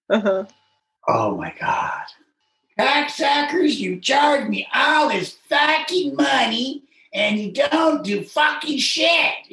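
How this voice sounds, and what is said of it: Imitated angry country bumpkin accent. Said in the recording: “Got this, you know, country bumpkin accent.”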